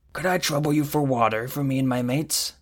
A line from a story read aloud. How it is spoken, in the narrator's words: asked in a raspy voice